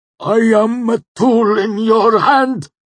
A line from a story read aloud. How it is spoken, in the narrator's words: he gasped